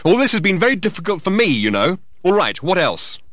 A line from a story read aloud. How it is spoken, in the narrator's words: he added angrily